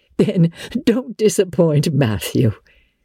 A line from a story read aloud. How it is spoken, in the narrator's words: said the pink lady, laughing